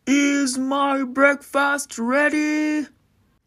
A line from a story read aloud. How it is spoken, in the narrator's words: the giant would yell